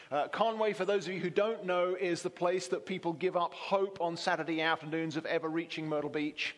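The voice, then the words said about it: English accent. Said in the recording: “you get the English guy from Conway ... You can tell from my accent.”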